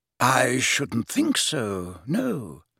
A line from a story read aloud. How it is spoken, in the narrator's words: said Dumbledore quietly